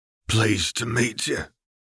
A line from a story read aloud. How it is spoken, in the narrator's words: he said in a deep, hoarse voice